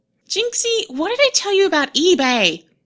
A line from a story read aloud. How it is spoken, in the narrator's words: Claudia yells from where she's crouched behind the couch